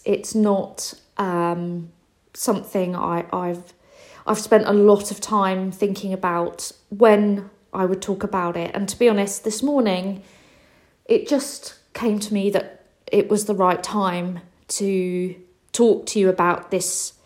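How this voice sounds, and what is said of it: Worried, anxious-sounding voice. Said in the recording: “you can probably hear in my voice, I, I'm really quite worried about talking about this”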